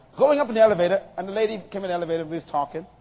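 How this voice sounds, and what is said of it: Noticeable non-local accent. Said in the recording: “you have an accent... my accent gave me away... you must not be from here”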